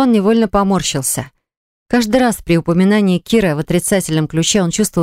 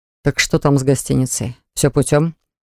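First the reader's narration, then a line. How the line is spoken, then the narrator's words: Plain. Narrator (Russian): спросил он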